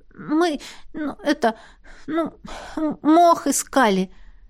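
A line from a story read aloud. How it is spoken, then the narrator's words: Stammering. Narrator (Russian): Заикаясь, ответила я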